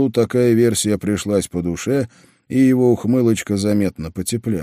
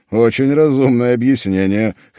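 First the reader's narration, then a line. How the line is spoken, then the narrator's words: Chuckling. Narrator (Russian): хохотнул я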